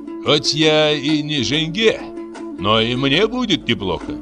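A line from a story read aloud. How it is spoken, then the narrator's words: Laughing, mischievous question. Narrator (Russian): Абай рассмеялся и спросил с необычным для него озорством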